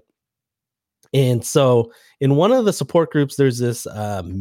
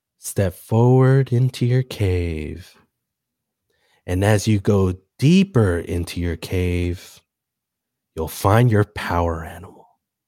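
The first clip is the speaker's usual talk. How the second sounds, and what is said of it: Calm, soothing voice. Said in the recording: “in a very calm voice. I'm going to try to do my calm voice”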